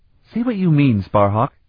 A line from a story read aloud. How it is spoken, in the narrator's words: Sarabian said in a testy voice